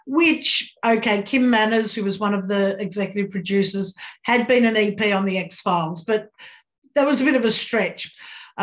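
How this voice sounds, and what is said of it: Australian accent. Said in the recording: “Australia, which is where I'm from, as you may have guessed by my accent.”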